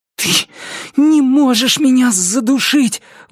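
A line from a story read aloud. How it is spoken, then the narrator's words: Hopeful breathless gasp. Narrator (Russian): выдохнул я, очень надеясь, что так и есть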